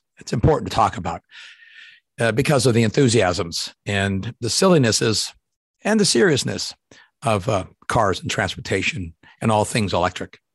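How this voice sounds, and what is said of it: Hoarse, croaky voice. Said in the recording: “you'll excuse the frog in my voice. I'm fighting residual laryngitis”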